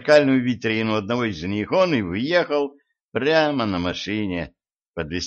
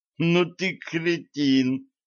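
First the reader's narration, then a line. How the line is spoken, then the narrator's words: Groaning. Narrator (Russian): простонал Ланс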